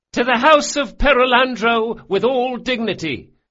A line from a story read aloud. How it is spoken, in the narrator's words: Gritting his teeth, he called out